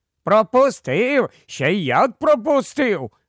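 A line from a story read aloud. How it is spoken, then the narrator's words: Joyful chattering voices. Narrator (Ukrainian): радісно заторохтіли його невидимі супутники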